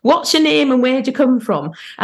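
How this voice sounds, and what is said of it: Northern English accent. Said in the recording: “she used to say in this good Northern accent”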